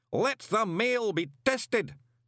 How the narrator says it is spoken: bellowed the all-commanding voice

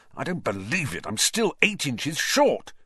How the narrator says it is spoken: said Ron furiously

